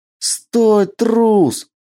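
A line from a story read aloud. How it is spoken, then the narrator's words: Shouting woman. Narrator (Russian): закричала она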